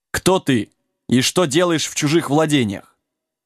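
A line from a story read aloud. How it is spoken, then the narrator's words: Stern rider asking. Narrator (Russian): Один из всадников строго спросил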